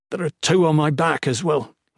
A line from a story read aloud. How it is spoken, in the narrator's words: groaned, feeling weak